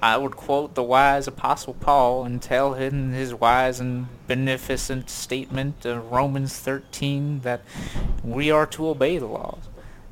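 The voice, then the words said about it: Imitates another person's voice and accent. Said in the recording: “that was not a great Jeff Sessions impersonation ... It wasn't terrible, though ... the accent I was doing”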